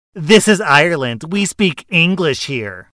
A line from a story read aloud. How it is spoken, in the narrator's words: the entitled mother scoffs loudly and said